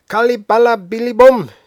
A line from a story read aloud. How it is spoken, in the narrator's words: shouts